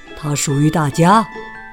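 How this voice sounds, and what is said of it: Dignified character voice. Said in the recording (Chinese): “老鼠用很有尊严的声音说”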